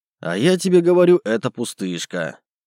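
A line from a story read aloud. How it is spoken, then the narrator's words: Snort. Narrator (Russian): хмыкнул я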